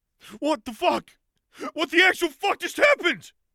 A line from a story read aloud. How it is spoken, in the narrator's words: screamed